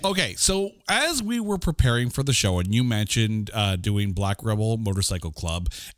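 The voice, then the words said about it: Smooth radio announcer voice. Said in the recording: “you got the best radio voice or podcast / radio voice.”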